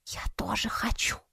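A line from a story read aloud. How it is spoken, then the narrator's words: Whisper. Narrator (Russian): шепнула Саяри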